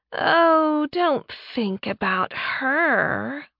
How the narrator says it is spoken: Laura purred

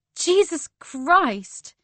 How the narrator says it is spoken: I shrieked

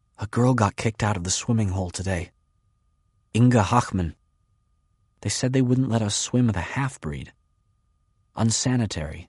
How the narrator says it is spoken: Jutta whispers

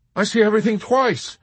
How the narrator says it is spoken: the soldier who saw everything twice shouted

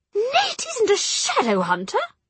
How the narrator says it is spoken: she cried

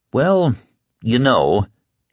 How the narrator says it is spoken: he said, and then stopped with a little laugh

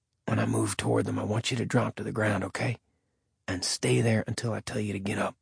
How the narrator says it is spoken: he whispered to Casey

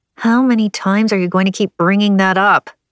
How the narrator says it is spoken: Arabella growled

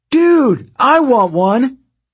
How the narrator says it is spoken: yelled somebody from Ares' cabin

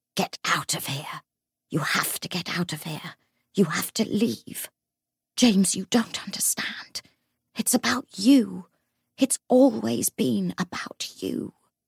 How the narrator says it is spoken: Face inches from James's, he hissed

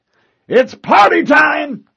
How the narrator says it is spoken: bellowed

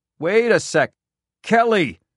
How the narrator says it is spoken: the man hollered again

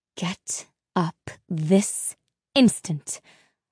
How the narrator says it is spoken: her mother had hissed

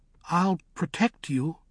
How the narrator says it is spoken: he said uneasily

